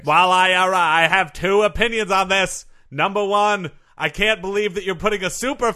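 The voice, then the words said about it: Boston accent. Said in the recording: “I can tell you have a bit of a Boston accent there. ... I do have a bit of a Boston accent.”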